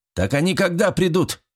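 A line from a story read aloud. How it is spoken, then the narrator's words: Barked. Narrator (Russian): рявкнул однорукий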